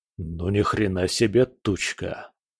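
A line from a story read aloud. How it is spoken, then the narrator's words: Mutter. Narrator (Russian): пробормотал Буран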